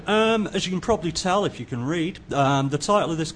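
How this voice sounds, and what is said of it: English accent. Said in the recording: “You might not be able to understand me because I'm English... adapt my accent”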